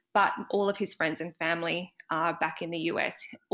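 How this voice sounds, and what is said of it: Australian accent. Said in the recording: “if you can't tell by my accent already, I am from Australia”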